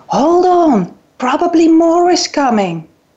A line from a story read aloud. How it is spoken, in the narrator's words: I yelled back at him